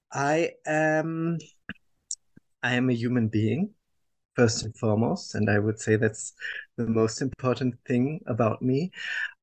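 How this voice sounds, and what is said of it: German accent. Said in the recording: “I was born and raised in Germany, as people will understand from my accent”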